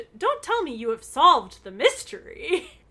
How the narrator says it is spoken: She was surprised at their early return and exclaimed

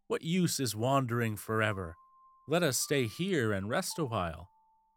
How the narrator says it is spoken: cried

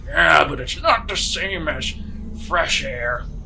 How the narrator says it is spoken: old man kind of grumbles

